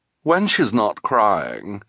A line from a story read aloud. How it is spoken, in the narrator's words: Esme said